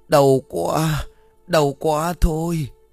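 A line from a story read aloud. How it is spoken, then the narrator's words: Moaning in pain. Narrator (Vietnamese): Ông Sơn đông bụng rên rỉ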